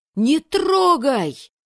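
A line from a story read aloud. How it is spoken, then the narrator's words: Desperate shout. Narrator (Russian): отчаянно крикнул кто-то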